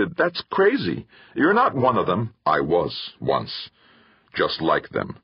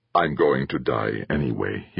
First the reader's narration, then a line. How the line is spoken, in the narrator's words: he said softly